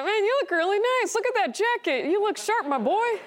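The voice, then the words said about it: Proud dad voice. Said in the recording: “I talk like a proud dad”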